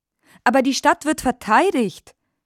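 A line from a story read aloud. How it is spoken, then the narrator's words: Calling out. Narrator (German): rief Frau Linke Hand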